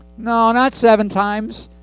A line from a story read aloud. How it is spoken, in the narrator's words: answered Yeshua